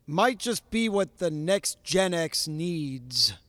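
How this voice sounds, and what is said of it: Full announcer voice. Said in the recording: “I'm going to do it in my full announcer voice.”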